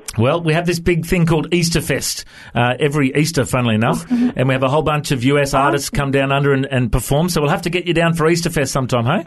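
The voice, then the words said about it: Australian accent. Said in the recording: “have you chatted to many Aussies before? Do you understand my accent okay?”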